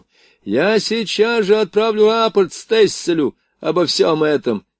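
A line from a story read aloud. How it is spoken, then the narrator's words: Shouted after them. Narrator (Russian): крикнул им вдогонку поручик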